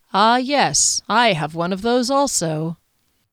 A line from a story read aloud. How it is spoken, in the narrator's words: His surprise, the chuckle he'd had to suppress before answering